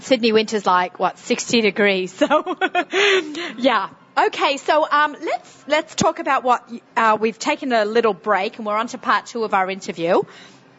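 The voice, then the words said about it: Strong Australian accent. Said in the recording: “We hear an accent ... she has an accent? Same accent as me? ... I have not gotten rid of my accent ... my crazy Australian accent ... with my Sydney, strong Sydney accent”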